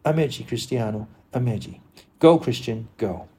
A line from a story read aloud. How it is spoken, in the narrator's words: she sighing, her eyes still wet with tears, said again